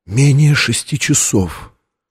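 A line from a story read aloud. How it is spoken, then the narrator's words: Whisper. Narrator (Russian): прошептала Лэнгдону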